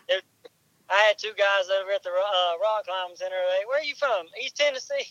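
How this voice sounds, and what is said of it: Southern US accent. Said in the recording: “southern accent like me”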